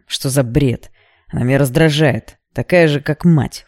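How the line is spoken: Snorting. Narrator (Russian): фыркнул он

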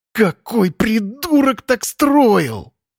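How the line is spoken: Groaning. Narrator (Russian): Стонал Макс

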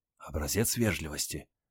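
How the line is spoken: Whisper. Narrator (Russian): шепнула жена

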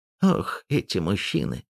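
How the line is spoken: Sighing. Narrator (Russian): вздохнула Клавдия Петровна

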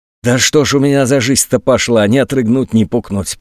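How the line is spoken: Grumbling. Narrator (Russian): проворчал он

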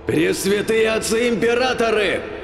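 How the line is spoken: Heated yell. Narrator (Russian): разгоряченно завопил маг

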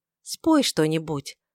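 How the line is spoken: Plain. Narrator (Russian): сказала она

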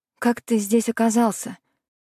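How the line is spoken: Uncertain question. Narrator (Russian): спросила неуверенно

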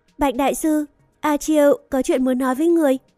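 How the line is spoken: Smiling speech. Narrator (Vietnamese): A Chiêu mỉm cười nói

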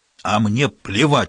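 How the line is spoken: Barking snap. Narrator (Russian): рявкнул инспектор

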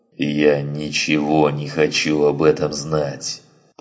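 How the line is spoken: Growling, interrupting. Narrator (Russian): прорычал Гриссом, оборвав его

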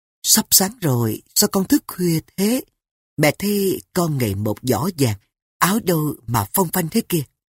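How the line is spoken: Soft question. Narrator (Vietnamese): Phu nhân khẽ hỏi

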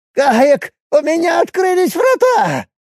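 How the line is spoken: Hoarse wheeze. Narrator (Russian): просипела Долла

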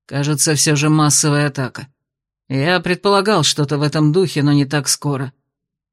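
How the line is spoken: Gloomy mutter. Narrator (Russian): мрачно буркнул Дейрон

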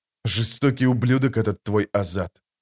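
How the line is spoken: Muttering. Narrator (Russian): пробормотал Паран

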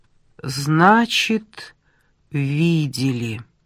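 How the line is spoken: Drawling. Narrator (Russian): протянула она

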